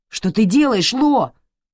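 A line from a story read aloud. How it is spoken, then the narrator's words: Shout. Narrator (Russian): крикнул Райан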